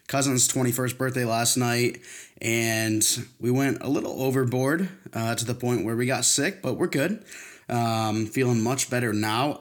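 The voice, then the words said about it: Slightly hoarse voice. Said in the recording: “the listeners may hear my voice get a little hoarse”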